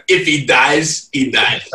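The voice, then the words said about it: Put-on Russian accent. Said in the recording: “Russian accent.”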